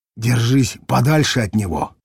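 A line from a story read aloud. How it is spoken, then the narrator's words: Whispered. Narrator (Russian): шепнул фельдшер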